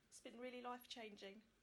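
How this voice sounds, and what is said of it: Emotional, tearful voice. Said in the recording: “Now I'm getting emotional.”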